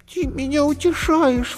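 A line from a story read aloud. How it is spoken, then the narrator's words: Bunny sobbing. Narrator (Russian): всхлипнула зайка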